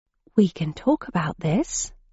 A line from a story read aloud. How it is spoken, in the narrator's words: I said, in a quiet tone